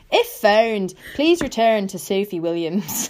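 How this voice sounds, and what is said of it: Weak put-on Irish accent. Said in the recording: “sounds more Scottish than Irish, doesn't it? ... Are you doing this in an Irish accent? ... My Irish accents aren't the best”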